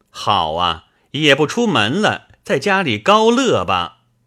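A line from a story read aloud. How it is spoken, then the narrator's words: Laughing. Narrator (Chinese): 冯子英笑道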